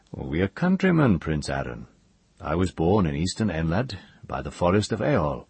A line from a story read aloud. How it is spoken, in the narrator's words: a grey-haired man with a kindly look, who said to him at last